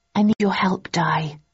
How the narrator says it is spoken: I said softly

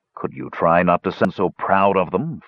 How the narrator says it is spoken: Flint grumbled

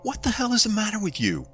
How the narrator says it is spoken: I screamed at Ryan

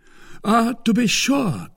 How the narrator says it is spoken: cried Porthos

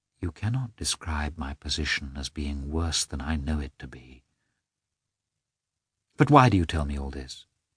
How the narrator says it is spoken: only said softly

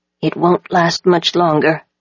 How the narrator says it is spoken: Nobu whispered to me

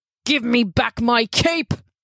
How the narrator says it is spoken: He roared

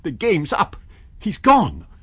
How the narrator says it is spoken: cried Kemp

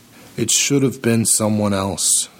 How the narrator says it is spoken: Sergio says, his voice thick with the regret that is not Sergio's at all

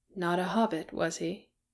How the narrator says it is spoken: said Bofur softly

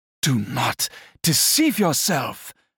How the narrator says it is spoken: exclaimed Herodias

